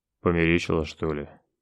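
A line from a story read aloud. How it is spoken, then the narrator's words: Displeased grumble. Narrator (Russian): великий князь недовольно буркнул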